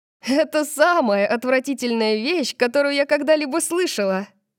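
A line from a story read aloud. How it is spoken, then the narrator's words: Laughing. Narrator (Russian): засмеялась я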